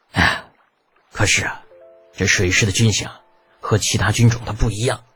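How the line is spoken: Sighing. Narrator (Chinese): 雷耀 叹了口气道

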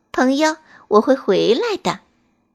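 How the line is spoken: Gentle, smiling. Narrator (Chinese): 春天对他微笑，好像是在说

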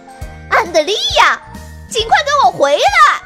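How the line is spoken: High-pitched shout. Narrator (Chinese): 布兰奇高音呐喊

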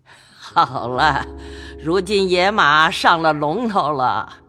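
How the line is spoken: Laughing. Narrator (Chinese): 贾母笑道

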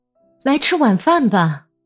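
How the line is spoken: Shouted. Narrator (Chinese): 朝格里高利喊道

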